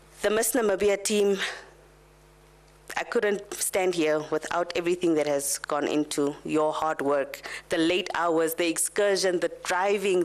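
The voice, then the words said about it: Emotional, tearful voice. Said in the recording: “I'm getting a little bit emotional. ... I need a tissue.”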